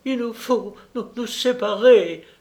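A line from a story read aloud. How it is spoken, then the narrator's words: Exclaimed with fake sobs. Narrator (French): s'écria-t-elle, feignant d'être secouée par de violents sanglots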